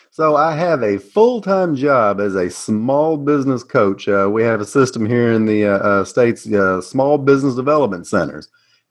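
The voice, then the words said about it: Southern US accent. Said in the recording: “I am U.S.-based Tennessee, and for those of you familiar with the South here, my accent will live up to everything you imagined.”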